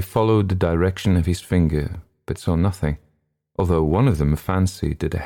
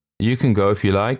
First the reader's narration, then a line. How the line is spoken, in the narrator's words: said one of the others with a faint laugh